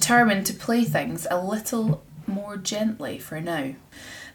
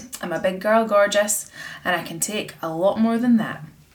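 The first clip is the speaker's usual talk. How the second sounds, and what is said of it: Put-on Scottish accent. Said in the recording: “That sound in the Scottish accent is just the best.”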